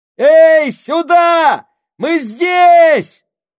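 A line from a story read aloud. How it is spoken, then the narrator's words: Shouted. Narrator (Russian): Сакс закричал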